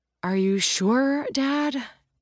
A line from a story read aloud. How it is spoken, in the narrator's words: Jack sighs